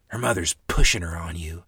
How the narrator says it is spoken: Mother whispered, sad words

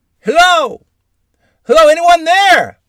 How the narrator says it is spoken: hollered

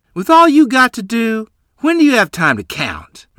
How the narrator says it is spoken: Mother said, half sneering

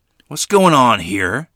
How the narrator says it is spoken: Grandfather thundered, as only a bull-headed Barney could bellow

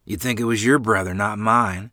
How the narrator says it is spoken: replied gruffly, affected deeply

